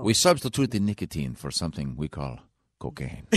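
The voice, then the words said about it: Put-on Mexican accent, sounding Italian. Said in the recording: “What the hell accent was that? ... That's my Mexican accent. ... that's a pretty darn good ... That was more Italian, I think.”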